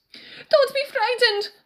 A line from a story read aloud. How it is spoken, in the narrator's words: Inigo screamed